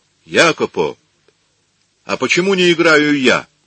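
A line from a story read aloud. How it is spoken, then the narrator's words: Loud question. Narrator (Russian): громко спросил Микеланджело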